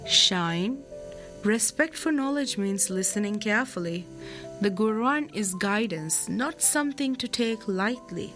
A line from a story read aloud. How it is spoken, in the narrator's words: Teacher Ibrahim gently reminded him